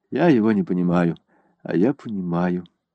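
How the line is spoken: Quiet. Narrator (Russian): негромко сказала Селена

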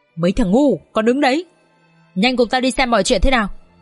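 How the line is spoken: Harsh gritted voice. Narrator (Vietnamese): Lão Hổ gằn giọng

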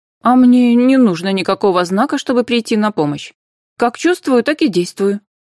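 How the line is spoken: Very sharp reply. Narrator (Russian): очень резко ответила Анфиса

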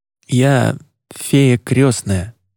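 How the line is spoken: Hoarse. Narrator (Russian): прохрипел

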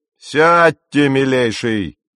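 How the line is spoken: Captain's sharp command. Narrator (Russian): прикрикнул капитан

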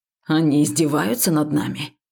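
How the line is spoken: Hissed. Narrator (Russian): шипел сидящий рядом с нами Векс

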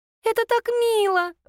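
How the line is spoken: Squealed. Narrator (Russian): взвизгнула Наденька

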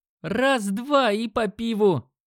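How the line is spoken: Shouting to crowd. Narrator (Russian): крикнул он толпе

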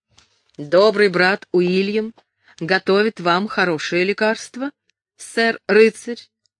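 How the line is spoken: Plain. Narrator (Russian): сказал он

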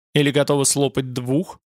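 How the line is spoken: Snort. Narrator (Russian): Она фыркнула

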